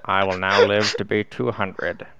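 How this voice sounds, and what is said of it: Imitates another person's voice. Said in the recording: “my Morgan Freeman impression”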